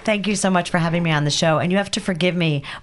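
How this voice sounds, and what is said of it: Scratchy voice, partly lost. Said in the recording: “I lost my voice ... so I sound a little scratchy right now.”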